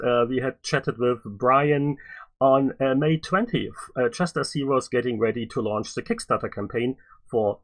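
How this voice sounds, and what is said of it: German accent in English. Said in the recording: “as you probably can tell by this funny name and my uh, equally funny accent, it's a German language podcast”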